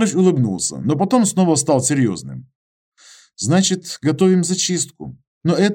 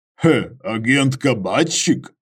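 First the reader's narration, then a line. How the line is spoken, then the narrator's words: Snorting. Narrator (Russian): Иваныч хмыкнул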